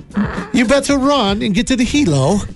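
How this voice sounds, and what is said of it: Put-on British accent. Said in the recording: “How do you say get to the chopper with a British accent?”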